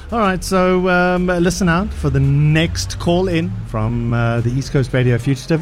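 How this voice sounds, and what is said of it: Hoarse, strained voice. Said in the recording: “I'm losing my voice. ... You are losing your voice.”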